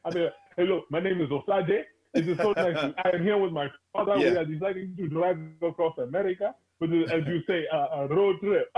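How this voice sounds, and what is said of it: Put-on African accent. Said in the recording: “You got to put your accent on? ... In an African accent.”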